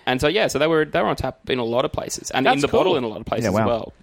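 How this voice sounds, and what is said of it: Australian accent. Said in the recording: “what's your accent? ... I'm from Australia”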